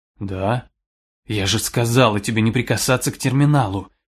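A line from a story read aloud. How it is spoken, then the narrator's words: Quiet and angry. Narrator (Russian): Тихо и зло уронила Тири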